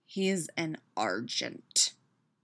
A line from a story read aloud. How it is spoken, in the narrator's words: Peter growls